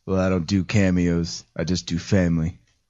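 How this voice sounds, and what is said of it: Vin Diesel impression. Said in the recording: “Vin Diesel did a little voice cameo”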